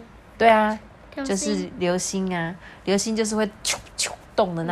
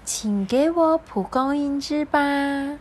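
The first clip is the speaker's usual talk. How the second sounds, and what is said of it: Clear, bright character voice. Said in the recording (Chinese): “他用清亮的声音说”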